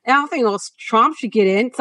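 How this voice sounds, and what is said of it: Attempted Australian accent. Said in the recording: “sorry, I can't do Australian accent.”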